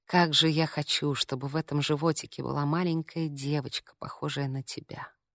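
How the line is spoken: Muffled tender whisper. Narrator (Russian): Прижавшись губами к ее животу, он прошептал

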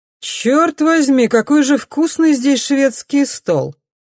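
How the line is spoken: Man speaking too loudly. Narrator (Russian): говорит мужчина слишком громко, как будто женщина далеко, а не рядом

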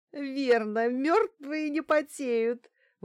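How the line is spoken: Forced out through laughter. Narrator (Russian): выдавила она сквозь смех

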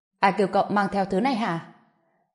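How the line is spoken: Angry loud voice. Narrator (Vietnamese): Trịnh Thái nổi giận, lớn tiếng nói

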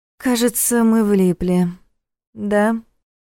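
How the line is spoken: Gloomy question. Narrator (Russian): мрачно спросила Саша

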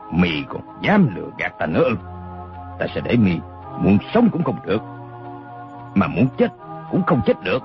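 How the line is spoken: Menacing growl. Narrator (Vietnamese): Đinh Xuân Thu mắt lộ hung quang, gằn giọng nói

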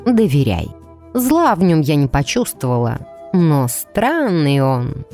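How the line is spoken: Drawling, herbalist. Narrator (Russian): протянула травница

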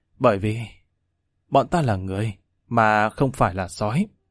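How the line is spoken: Weary sigh, soft clenched words. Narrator (Vietnamese): Lâm Văn Vinh uể oải thở dài, cắn răng khẽ nói

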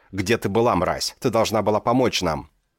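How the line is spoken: Shouting. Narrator (Russian): закричал он

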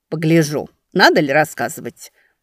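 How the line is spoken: Muttered. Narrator (Russian): буркнула Чайна

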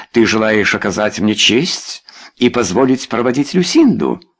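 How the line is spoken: Slightly mocking. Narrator (Russian): Немного насмешливо произнес он

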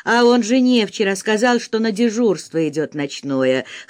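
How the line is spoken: Snort. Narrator (Russian): хмыкнул кто-то

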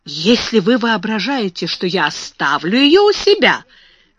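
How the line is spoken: Exclaimed. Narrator (Russian): воскликнула мисс Минчин

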